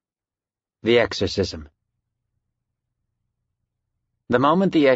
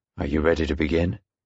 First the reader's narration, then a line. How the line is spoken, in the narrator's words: Father Nolan said quietly